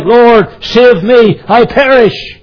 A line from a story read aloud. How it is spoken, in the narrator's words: he cried